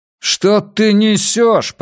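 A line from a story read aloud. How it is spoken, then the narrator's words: Shouting over the rain. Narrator (Russian): прокричал Джеймс сквозь гул дождя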